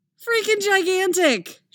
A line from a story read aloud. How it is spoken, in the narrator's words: she shouts back